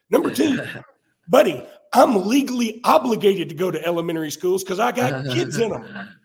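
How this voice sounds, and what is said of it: Rough, damaged voice. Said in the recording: “apologize for my voice, y'all. This is the best I got right now ... my terrible voice”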